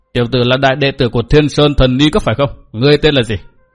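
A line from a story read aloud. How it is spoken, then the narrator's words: Furious, sneering interruption. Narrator (Vietnamese): Mạc Nam Lão Ma giận dữ như điên như khùng, cười nhạt ngắt lời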